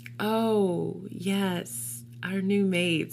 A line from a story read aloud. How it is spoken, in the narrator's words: said Katie